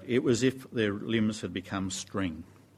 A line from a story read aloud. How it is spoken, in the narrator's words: someone said